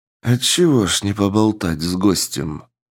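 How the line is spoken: Calm unhurried reply. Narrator (Russian): Через паузу без видимого волнения спокойно ответил американец

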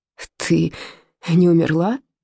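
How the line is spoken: Hoarse rasp. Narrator (Russian): прохрипел

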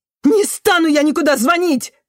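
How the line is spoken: Barking man. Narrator (Russian): рявкнул мужчина

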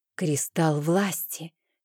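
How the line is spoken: Quiet reply. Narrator (Russian): тихо ответила я

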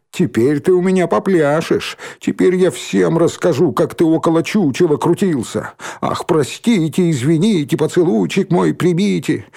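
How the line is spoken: Mocking guffaw. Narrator (Russian): снова захохотал

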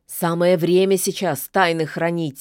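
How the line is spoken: Angry grumble. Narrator (Russian): сердито буркнула она

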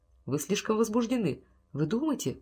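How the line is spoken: Muttered. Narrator (Russian): пробормотал Томас Вулф

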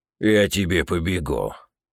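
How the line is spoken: Growled threat. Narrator (Russian): Рыкнул один из нападавших

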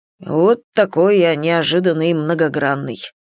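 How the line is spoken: Grumbling. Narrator (Russian): проворчал Рен

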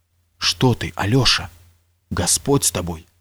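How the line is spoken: Mumble. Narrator (Russian): забормотал

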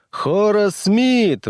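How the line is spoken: Roared. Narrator (Russian): взревела она

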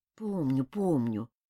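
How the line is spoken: Grumbling. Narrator (Russian): проворчал мотылек

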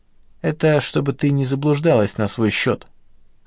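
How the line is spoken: Wry snort. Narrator (Russian): хмыкнул он

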